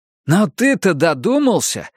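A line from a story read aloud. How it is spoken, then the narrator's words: Exclamation. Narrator (Russian): воскликнул Гарри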